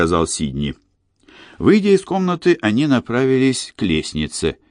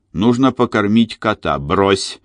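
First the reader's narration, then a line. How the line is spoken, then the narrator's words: Sharp. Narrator (Russian): резко сказал Сидни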